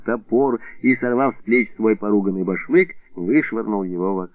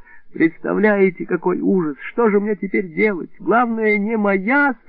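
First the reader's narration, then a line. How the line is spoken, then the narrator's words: Moaning passenger. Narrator (Russian): стонал пассажир с билетом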